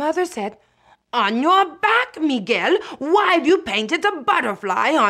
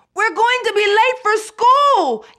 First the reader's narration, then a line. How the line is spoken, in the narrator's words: yelled Marissa